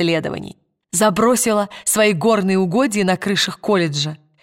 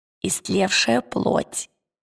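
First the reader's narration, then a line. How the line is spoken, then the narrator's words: Whisper. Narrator (Russian): шепотом отозвалась Лира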